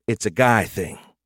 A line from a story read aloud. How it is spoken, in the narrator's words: she sighed